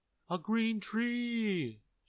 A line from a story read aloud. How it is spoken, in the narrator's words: shouted the crowd